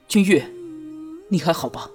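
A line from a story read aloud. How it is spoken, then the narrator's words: Low male voice. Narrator (Chinese): 男子低声道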